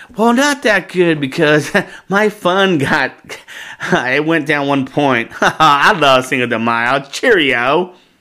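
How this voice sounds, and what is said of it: Imitates another person's voice. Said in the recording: “And that's my impression of you. ... That was my impression of you.”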